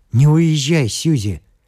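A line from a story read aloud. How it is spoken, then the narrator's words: Pleading. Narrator (Russian): сказал Джордж просительным тоном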